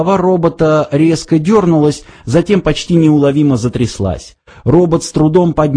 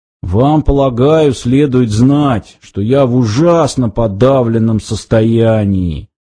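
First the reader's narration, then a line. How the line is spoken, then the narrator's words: Muffled, hollow voice. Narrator (Russian): глухо произнес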